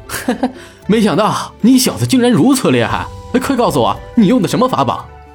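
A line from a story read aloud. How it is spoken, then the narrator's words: Laughing. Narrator (Chinese): 雷震天笑道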